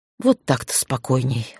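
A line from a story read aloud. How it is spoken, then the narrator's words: Snort. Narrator (Russian): хмыкнул он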